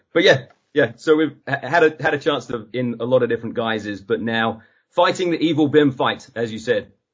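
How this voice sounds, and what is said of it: English accent that sounds Australian. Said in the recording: “everyone gets very confused by my accent as far as where I'm actually from. I go back to my hometown in Suffolk in England ... they're mostly so convinced that I'm Australian”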